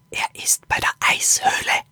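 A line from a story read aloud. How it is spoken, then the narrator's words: Whispered. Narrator (German): flüsterte Axel Lilo zu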